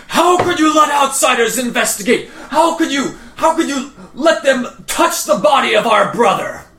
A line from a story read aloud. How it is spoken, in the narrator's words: You can hear the shouting coming from upstairs that is a man's voice, and he is yelling and says